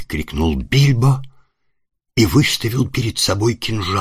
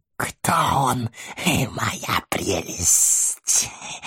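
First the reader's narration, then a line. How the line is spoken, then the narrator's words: Hissing to himself. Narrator (Russian): прошипел Горлум, который привык беседовать сам с собой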